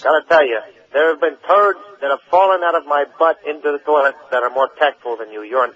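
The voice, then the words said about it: Fake accent, put-on caller voice. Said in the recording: “That was a phony call with a phony accent ... doing a voice.”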